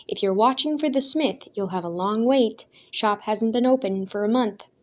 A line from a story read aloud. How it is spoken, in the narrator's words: a passing villager called out to him